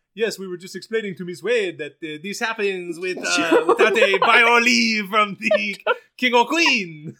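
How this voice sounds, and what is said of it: Put-on French accent. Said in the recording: “you are cast as the French president. Hands down. What an accent. What an accent. ... It's better than Chris Pine's accent”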